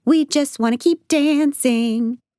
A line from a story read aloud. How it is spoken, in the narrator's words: yelling back